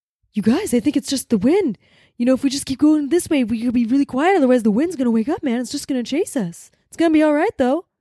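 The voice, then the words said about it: Imitates another person's voice. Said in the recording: “You want to do your Mark Wahlberg and The Happening impression right now? ... You do a good one.”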